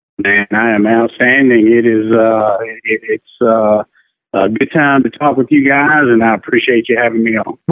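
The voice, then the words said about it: Non-Midwestern accent, Mississippi. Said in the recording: “that does not sound like a Cleveland, Ohio accent. That's not a Midwestern accent. ... it's definitely not a Midwestern accent.”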